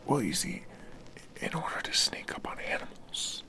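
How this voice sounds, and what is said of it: Whispering. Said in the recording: “You know you don't have to whisper, right? ... no one can hear you, what you're saying. You can't just talk in a normal voice?”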